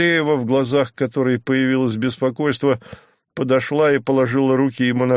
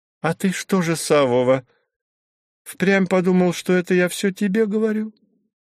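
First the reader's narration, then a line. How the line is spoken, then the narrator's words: Innocent questioning voice. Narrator (Russian): поинтересовалась она невинным голосом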